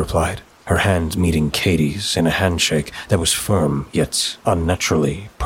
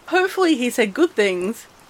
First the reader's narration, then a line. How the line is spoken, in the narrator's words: Katie said, giggling